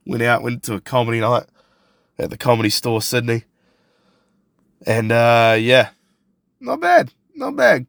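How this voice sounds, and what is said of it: Hoarse voice. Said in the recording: “voice is going a bit hoarse. ... battling a little bit of a head cold”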